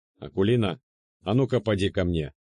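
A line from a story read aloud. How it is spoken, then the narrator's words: Commanding tone. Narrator (Russian): приказным тоном сказал я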